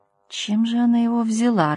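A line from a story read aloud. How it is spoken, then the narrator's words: Bewildered woman. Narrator (Russian): растерянно глянула Лёля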